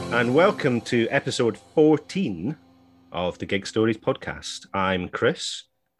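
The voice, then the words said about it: Posh put-on phone voice. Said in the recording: “he's never that posh ... put on my phone voice ... You absolutely put on your phone ... normally I sound like some kind of Peterhead trollerman ... I went all posh there”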